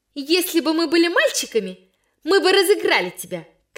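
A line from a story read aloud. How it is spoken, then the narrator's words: Shouting girl. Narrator (Russian): кричала Ляля Ивина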